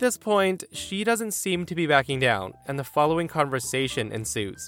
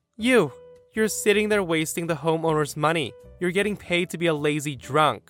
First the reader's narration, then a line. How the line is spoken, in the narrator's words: She scoffs and says